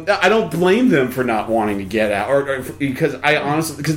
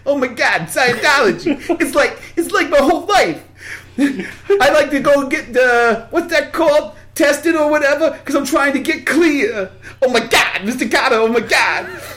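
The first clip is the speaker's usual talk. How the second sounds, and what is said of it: Bad John Travolta impression. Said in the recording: “John Travolta, sorry, another terrible impression ... I do a really bad impression of a John Travolta”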